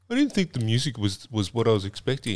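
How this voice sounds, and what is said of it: Imitates another person's voice. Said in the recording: “why did you put on a different voice?”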